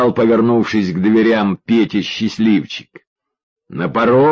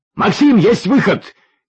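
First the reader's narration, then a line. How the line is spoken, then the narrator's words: Shouting. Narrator (Russian): крикнул Юрьев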